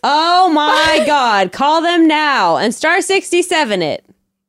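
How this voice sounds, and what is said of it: Talking very loudly. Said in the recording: “you're talking so loudly”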